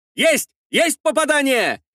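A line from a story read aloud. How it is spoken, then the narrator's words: Shouting. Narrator (Russian): кричал помощник капитана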